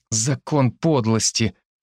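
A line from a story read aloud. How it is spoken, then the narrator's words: Grumbling. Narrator (Russian): ворчал я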